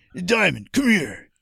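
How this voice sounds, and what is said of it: Imitates another person's voice, poorly. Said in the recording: “I do the worst fucking Randy Savage impression.”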